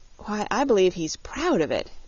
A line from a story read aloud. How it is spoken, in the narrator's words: exclaimed Dorothy